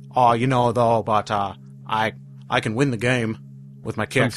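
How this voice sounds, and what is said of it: Wavering put-on Southern Kennedy accent. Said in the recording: “I lost my accent. I'm sorry. ... It's a Southern Kennedy kind of thing. He goes in and out. ... his constantly changing accent.”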